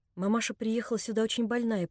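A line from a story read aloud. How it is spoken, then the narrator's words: Quiet voice. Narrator (Russian): прибавила Нелли тихим голосом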